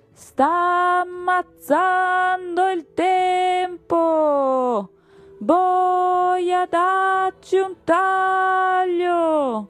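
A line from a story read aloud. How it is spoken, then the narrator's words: Queen's jerky shout. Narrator (Italian): la regina gridò con voce sincopata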